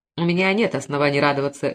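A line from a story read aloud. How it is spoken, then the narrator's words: Sharp reply. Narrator (Russian): резко ответил Мефрес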